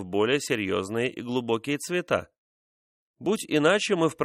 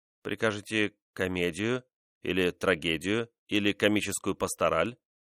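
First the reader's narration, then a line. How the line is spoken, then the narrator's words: Timid question. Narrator (Russian): робко спросил Корнель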